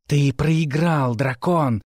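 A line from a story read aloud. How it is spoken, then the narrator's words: Snake-like hiss. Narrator (Russian): прошипела, как змея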